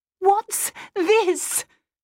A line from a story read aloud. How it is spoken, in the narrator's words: asked, gesturing wildly